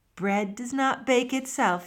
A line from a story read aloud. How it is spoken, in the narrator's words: answered with a yawn